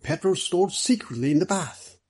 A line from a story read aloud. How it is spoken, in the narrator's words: excitedly